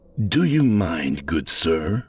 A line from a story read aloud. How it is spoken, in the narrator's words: he said in a mildly exasperated tone